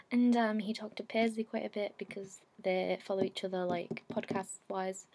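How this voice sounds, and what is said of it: English accent. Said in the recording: “coming over from England again. I feel like the accent gets everyone”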